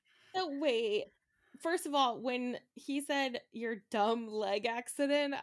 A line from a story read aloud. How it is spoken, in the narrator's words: I laughed